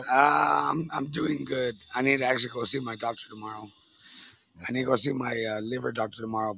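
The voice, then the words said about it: Worn-out, strained voice. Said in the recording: “my voice is all shot from the DJing and the singing and the podcasting”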